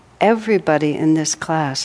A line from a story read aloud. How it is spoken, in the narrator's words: I said